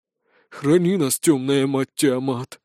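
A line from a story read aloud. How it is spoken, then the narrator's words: Quiet sigh, fat man. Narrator (Russian): вновь тихо вздохнул толстяк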